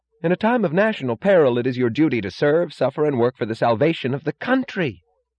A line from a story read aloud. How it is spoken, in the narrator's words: Lawson cried suddenly, blindly, righteously